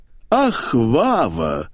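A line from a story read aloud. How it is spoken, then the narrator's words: Dreamy drawl. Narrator (Russian): мечтательно протянула маменька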